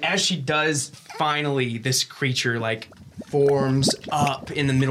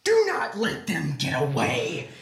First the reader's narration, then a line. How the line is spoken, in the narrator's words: this woman scream out and she says